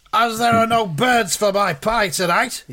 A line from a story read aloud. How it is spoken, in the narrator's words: he shouted